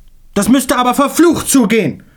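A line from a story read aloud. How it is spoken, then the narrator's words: Chairman roaring. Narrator (German): brüllte endlich der Vorsitzende der Kommission Schweg zu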